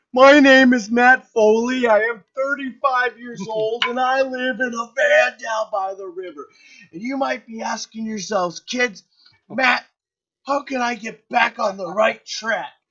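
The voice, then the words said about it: Chris Farley as Matt Foley impression. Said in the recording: “his impression of him was hilarious ... Farley was the best.”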